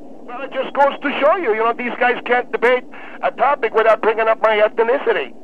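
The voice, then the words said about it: Speaks with a noticeable accent. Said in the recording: “He mentioned your accent”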